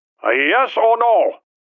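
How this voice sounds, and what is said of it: Rough Chinese accent. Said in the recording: “a voice with a rough Chinese accent asked”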